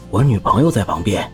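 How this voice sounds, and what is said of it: Quiet, hushed voice. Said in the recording (Chinese): “小声说”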